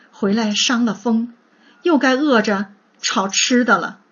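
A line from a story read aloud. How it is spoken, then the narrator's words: Woman sighing. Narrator (Chinese): 黛玉叹道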